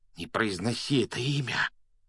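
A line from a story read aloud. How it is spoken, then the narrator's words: Frightened whisper. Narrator (Russian): испуганным шепотом попросил Рон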